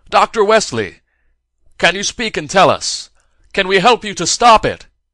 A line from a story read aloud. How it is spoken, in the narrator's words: Summoning his courage, cupped his hands to his mouth and shouted